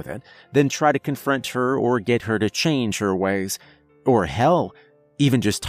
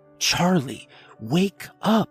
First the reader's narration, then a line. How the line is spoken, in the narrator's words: Her voice was urgent